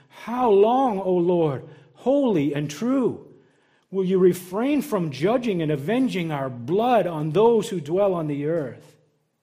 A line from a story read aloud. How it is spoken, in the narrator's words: they cried out with a loud voice, saying